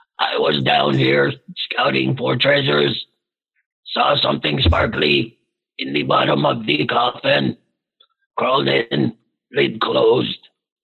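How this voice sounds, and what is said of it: In-game character voice. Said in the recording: “Sorry, I forgot my character voice.”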